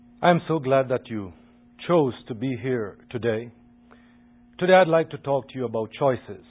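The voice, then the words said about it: Jamaican accent. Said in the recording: “I think you'll quickly recognize his accent. is from Jamaica.”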